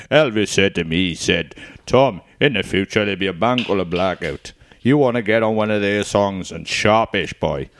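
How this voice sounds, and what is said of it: Welsh-accented impression of a singer. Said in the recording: “imagine how bad the songs would sound in a Welsh accent ... That's a bit Tom Jones covering that.”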